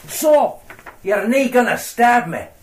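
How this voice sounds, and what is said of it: Convincing put-on Glaswegian accent. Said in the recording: “Totally convincing accent, I must say. ... Satirizing Glaswegian Ned culture”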